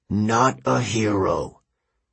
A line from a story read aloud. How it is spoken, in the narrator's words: Kronos sneered